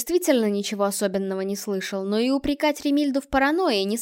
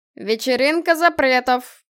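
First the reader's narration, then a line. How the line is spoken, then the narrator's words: Howling from the stage. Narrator (Russian): Взвыло со сцены волосатое создание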